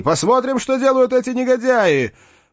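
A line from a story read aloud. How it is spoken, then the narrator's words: Shouted. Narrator (Russian): тотчас крикнул оттуда тем, кто оставался в зале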